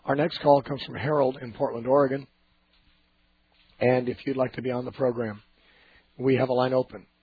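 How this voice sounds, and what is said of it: Hoarse, raspy voice. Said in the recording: “My voice is affected. If you've tuned in late, I'm recovering from laryngitis. ... I don't always sound like this ... It just doesn't sound too normal.”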